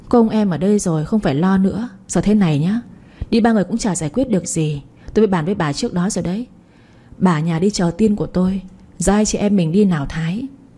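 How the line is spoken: Smiling. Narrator (Vietnamese): Lan Thúy mỉm cười nói

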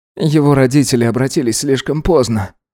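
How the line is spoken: Sighing. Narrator (Russian): вздохнул он

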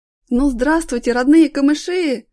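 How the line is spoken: Shouted. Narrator (Russian): крикнул Аркаша

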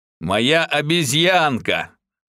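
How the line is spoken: Menacing after spiteful giggle. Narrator (Russian): Адмирал злобно хихикнул, а затем грозно сказал

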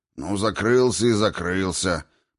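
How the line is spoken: Grumbling. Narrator (Russian): проворчал Двалин

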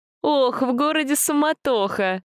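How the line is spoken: Laughing. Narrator (Russian): Засмеялась Юлия

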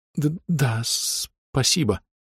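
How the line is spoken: Hoarse, heavy stutter. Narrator (Russian): сильно заикаясь, хрипло ответил мой пациент

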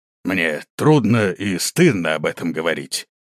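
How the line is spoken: Creaky voice. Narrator (Russian): проскрипел хан

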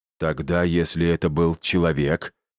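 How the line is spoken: Exhaled through teeth. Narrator (Russian): Торин выдохнул сквозь зубы

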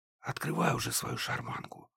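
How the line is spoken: Whispered. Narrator (Russian): прошептала Банши

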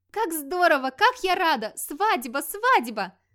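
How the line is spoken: Joyful squealing. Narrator (Russian): Радостно визжала Вальтора

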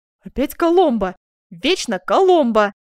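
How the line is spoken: Duchess exclaiming. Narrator (Russian): воскликнула герцогиня

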